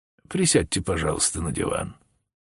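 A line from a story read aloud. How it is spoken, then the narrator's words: Soft invitation. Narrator (Russian): мягко предложил Холмс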